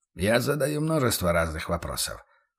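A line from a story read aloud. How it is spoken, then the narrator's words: Cold smirk. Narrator (Russian): холодно усмехнулся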